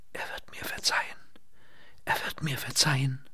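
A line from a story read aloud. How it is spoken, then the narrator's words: Whispering. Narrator (German): Lynette wisperte in das taube Ohr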